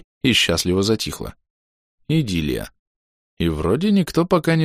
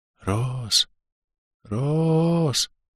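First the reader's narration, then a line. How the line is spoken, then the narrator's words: Quiet mournful distant whisper. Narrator (Russian): Тихий заунывный шепот донесся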